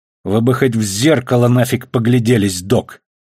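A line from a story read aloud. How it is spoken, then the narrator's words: Through gritted teeth. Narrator (Russian): процедила Кара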